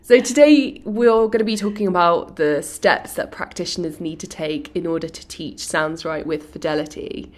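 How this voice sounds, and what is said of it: Slightly congested voice. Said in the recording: “I've got a bit of a cold at the moment, so I do apologise if you can hear that in my voice.”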